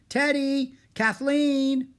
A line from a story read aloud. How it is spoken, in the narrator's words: Annie shouted